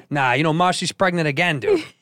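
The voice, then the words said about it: Thick put-on Chicago accent. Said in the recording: “I have this thick Chicago accent.”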